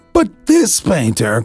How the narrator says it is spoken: cried Walter Ludlow with animation

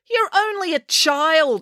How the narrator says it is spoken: exclaimed Mrs

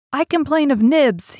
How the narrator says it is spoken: he cried promptly

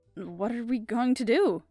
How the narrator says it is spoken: I asked uneasily

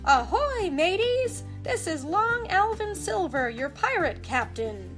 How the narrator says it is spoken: he shouted

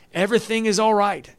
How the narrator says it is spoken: Ahimaaz cried out to the king

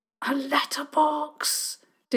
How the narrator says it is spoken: Diggory hissed

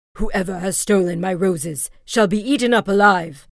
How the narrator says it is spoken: a fierce lion and roared out

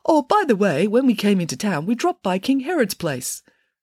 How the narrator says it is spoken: the third king piped up and said

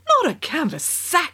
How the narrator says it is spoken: exclaimed the Queen

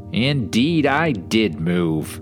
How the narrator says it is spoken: he announced in a clear voice, startlingly human

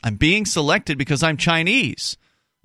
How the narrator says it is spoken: Eventually yelling, he said

